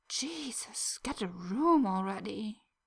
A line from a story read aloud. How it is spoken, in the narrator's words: Minako lets out an exasperated groan and mutters under her breath